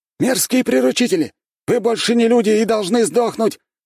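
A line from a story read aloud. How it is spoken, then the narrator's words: Shouted from crowd. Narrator (Russian): выкрикнул один из толпы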